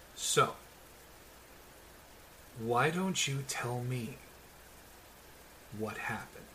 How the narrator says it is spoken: quietly regards the group and says

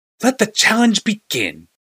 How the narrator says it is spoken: cried

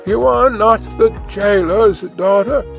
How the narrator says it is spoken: she sighed

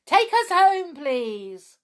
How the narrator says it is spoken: Peter called out

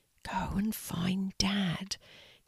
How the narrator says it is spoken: Casey whispers to himself

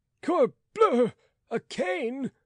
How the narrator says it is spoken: cried Rateau

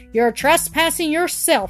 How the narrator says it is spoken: she screamed

